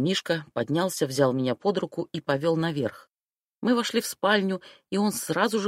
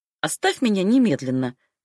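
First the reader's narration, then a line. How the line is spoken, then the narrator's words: Barked. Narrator (Russian): рявкнул я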